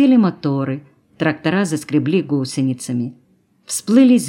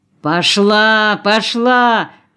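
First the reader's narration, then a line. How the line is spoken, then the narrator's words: Shouting. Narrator (Russian): кричал Аркадий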